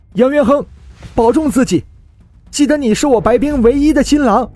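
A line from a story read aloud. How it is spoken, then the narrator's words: Sudden alarmed cry. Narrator (Chinese): 猛然，白冰脸色骤变，叫道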